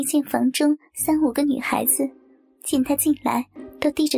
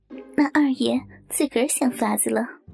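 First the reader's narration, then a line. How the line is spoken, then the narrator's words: Muffled laugh behind hand. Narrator (Chinese): 袭人掩口笑道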